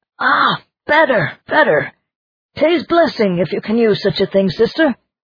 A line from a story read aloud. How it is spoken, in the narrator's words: he cried